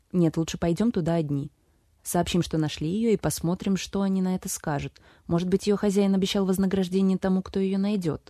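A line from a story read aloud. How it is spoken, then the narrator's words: Plain. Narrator (Russian): сказал Уоррен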